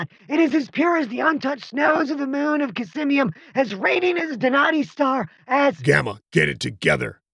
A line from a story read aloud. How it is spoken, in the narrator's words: Killian snapped